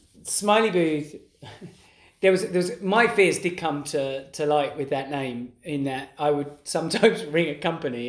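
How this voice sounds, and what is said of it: East London accent. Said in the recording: “my accent ... your East London kind of accent ... East London accent”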